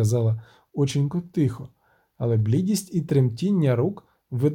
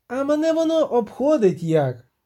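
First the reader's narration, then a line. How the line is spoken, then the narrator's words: Shrieking, interrupting. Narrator (Ukrainian): заверещав Агловаль, уриваючи його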